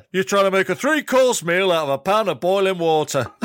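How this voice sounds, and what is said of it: Attempted Yorkshire accent. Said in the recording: “somewhere in the north accent. That was meant to be Yorkshire, but please don't.”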